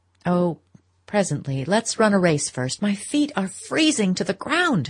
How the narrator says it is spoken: she cried

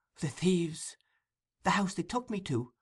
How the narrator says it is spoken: whispered Oliver

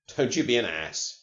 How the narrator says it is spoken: he said

